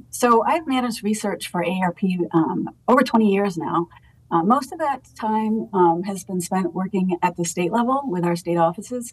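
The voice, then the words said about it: Maine accent. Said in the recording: “as you probably might pick up on my accent, I am from Maine originally”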